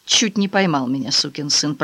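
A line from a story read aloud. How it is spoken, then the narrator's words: Muttering. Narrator (Russian): пробормотал он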